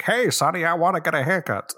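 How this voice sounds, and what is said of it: 1940s sailor accent. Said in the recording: “accent was that? Nineteen forties um, sailor. ... That's the that's a very specific accent.”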